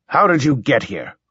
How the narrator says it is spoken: I snapped

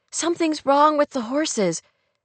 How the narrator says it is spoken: she cried

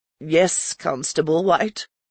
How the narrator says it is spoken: saying, in a croaking voice

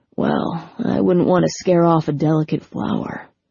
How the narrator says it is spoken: Patrick murmured

